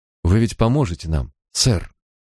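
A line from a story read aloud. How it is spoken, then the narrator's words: Widow's trembling voice. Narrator (Russian): спросила вдова дрожащим голосом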